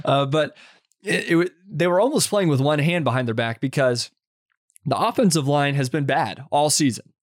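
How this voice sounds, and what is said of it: Hoarse, strained voice. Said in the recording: “Sorry, my voice, I'm losing my voice after screaming so much”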